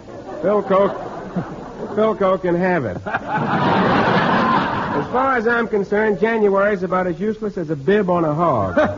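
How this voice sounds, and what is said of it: Southern Geechee drawl. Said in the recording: “How do you keep your Southern Geechee drawl up so well?”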